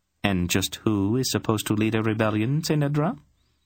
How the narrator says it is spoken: Polgara asked her calmly

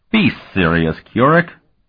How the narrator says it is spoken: Colton scoffed

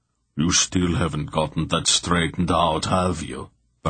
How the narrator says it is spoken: Bragg muttered to Mandorallan

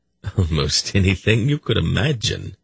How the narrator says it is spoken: Silk laughed

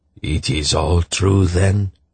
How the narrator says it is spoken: he asked in a hoarse voice

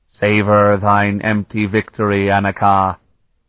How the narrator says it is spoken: the hooded figure called in a hollow, strangely metallic voice

